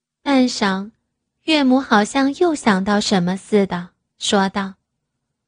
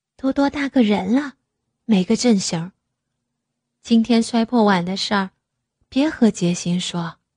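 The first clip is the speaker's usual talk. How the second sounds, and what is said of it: Speaking quietly, softly. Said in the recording (Chinese): “小声的说”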